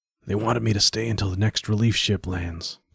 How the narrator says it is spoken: Chapman whispered back

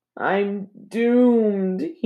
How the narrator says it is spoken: he moaned

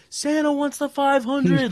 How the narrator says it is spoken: yelled

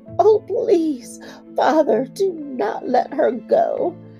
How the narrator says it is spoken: she cried hysterically

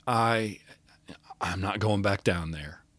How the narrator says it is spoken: he whispered

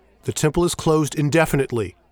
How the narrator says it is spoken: he shouts

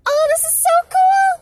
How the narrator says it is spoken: she exclaimed

